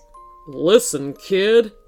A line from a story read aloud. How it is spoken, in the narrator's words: Findiana Jones said in a deep voice